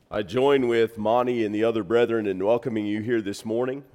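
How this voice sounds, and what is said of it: Deeper, congested voice. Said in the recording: “my voice sounds a little different ... My allergies hit this week, and so I may sound a little deeper ... my ears got clogged up”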